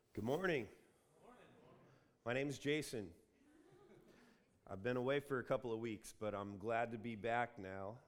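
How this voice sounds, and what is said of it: Congested voice from a cold. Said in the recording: “I'm fighting a bit of a cold, so if you'll forgive my voice... sounding like this”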